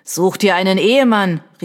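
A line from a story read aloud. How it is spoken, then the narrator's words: Called out. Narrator (German): rief ein Dritter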